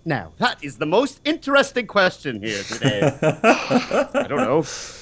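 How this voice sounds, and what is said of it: Overacted Sherlock Holmes character accent. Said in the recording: “You just need you need an accent ... That's general overacting, I believe ... that's Sherlock's got it”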